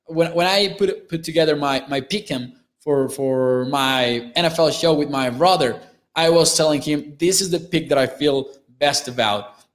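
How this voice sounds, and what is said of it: Mexican accent in English. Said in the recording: “What kind of accent is this that you have ... I'm from Mexico, so that might be the accent. That's definitely the accent”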